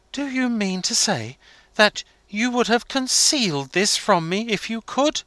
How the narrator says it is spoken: he exclaimed

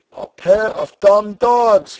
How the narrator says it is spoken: he cried

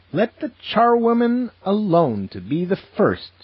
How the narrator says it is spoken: cried she who entered first

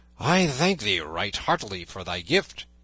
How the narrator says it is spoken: cried Robin

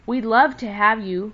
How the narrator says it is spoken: cried Happy Jack, speaking for all

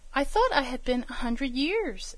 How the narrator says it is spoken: exclaimed Diamond

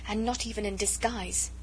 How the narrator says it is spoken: she murmured

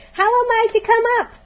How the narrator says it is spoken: shouted Diamond

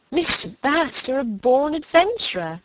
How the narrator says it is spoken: laughed Margaret

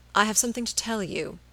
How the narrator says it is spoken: he said gently

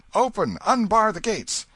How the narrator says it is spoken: shouting

